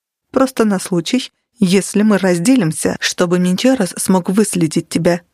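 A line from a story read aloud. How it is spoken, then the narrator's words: Plain. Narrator (Russian): сказал Нигер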